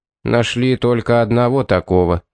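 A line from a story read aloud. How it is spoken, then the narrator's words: Gloomy reply. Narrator (Russian): мрачно ответил Телман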